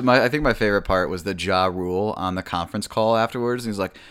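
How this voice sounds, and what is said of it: Usual voice. Nothing is said of it.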